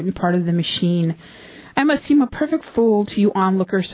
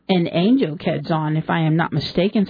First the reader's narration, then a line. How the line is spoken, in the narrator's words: said the Duke